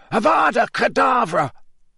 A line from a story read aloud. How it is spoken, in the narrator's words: a second voice which screeched the words to the night